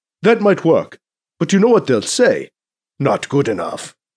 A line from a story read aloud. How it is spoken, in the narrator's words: he says in a mock Arabian accent